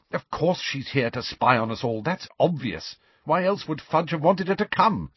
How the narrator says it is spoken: snapped Hermione

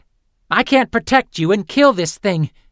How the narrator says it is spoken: Fitz snapped

